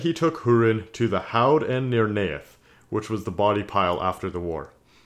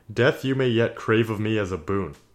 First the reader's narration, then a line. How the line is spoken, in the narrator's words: Morgoth laughed, and he said